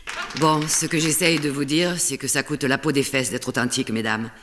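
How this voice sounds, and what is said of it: Southern French accent, slightly Spanish. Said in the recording (French): “Très étrange, hein, cet accent du sud avec un petit accent espagnol”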